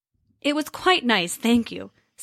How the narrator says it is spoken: said Loki

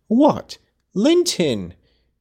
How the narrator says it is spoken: cried Cathy, kindling into joyful surprise at the name

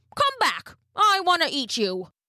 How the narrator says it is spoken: he called out

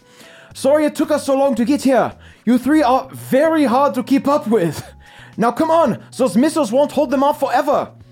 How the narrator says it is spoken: through a loudspeaker, you hear Keith shout

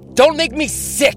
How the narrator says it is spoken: yelled

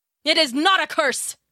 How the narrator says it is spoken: King Midas cried and pushed his daughter angrily away from him

